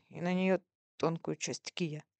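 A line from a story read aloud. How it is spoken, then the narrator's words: Through clenched teeth. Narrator (Russian): сквозь зубы говорил Луи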